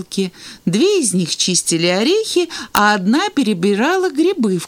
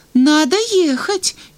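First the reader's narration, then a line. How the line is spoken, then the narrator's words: Uncertain. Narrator (Russian): неуверенно сказала Аля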